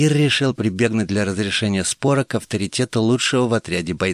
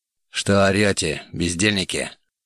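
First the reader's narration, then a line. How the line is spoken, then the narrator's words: Growled. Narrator (Russian): рыкнул атаман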